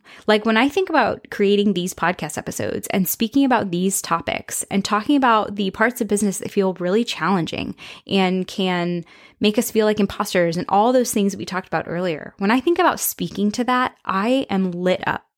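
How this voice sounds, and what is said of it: Excited, slightly faster speech. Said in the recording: “You can probably hear it in my voice. I get really excited. I talk a little bit faster.”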